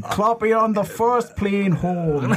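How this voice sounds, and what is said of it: Bad put-on Scottish accent. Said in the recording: “Scottish accent. ... That was fucking wretched. That is easily the worst thing you've ever done.”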